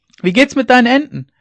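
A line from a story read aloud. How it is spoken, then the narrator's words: Called after someone. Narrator (German): rief er ihr noch nach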